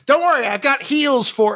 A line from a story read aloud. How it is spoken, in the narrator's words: Grum yells